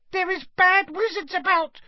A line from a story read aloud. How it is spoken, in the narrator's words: she squeaked distractedly, as she leant forwards and laboured to keep running